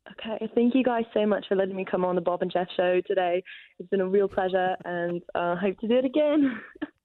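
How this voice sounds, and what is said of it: Attempted British accent, sounds Australian. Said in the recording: “your best British accent? ... I've been told it's really bad ... It's Australian. ... That wasn't bad. That was Australian.”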